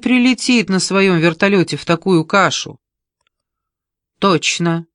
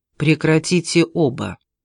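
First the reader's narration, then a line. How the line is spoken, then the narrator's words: Calm. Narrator (Russian): спокойно произнес Найджел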